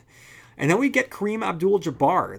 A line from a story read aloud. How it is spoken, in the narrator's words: the monster shouter